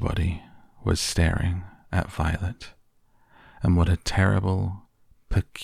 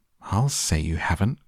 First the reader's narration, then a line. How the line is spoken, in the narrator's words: cried Mrs